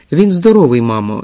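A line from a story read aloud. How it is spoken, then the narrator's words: Sighing. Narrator (Ukrainian): зітхнула місіс Раут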